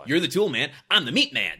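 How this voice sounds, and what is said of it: Abrasive imitation of another person's voice. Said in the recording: “That was my Joe Morton impression. ... It was good. I mean, it was sufficiently abrasive.”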